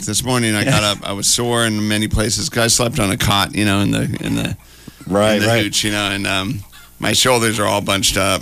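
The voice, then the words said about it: Rough, worn-out voice. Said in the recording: “I can definitely hear in my voice how rough it is after a weekend of seven shows a day ... My voice is rocked”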